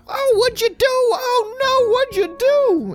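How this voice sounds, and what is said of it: Poor put-on Cockney British accent. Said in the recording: “that's my Cockney British accent... I'm bad at accents.”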